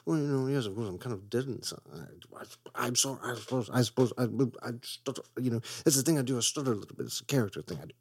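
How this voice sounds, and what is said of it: Stuttering, sputtering imitation of another person. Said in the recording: “That's my Hugh Grant impression, in which he just sputters out for every movie.”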